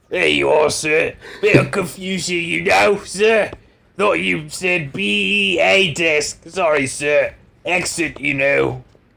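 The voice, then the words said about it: Put-on British accent. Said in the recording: “That's my British accent. ... I was transported back to Old Blighty.”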